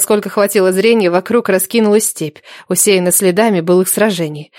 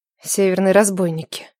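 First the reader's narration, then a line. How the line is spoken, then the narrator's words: Mutter. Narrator (Russian): пробормотала Нелада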